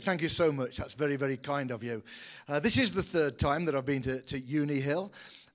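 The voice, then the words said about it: British accent. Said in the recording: “I do trust you can understand the accent. A very good British accent”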